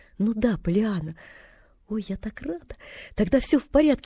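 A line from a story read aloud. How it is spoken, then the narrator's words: Girl's relieved exclamation. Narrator (Russian): воскликнула девочка и облегченно вздохнула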